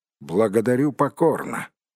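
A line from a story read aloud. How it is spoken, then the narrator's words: Gloomy. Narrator (Russian): мрачно произнес Бильбо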